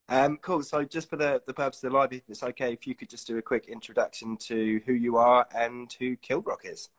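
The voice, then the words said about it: Crackly, husky voice. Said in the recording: “I woke up this morning a bit coldy, so my voice is a little crackly. So you've got husky ... today.”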